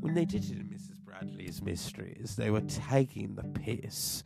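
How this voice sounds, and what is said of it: Put-on British accent. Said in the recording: “let me do it in my British accent”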